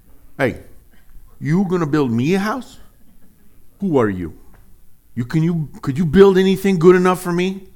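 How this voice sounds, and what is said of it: Bad put-on mob accent. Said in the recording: “let's do our best mob accent ... bad accents aside, it's pretty bad, wasn't it?”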